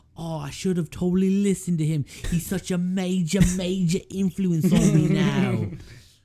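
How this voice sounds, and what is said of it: Put-on British accent, pretty good. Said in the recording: “a Russell Brand impersonation ... You have a pretty good British accent.”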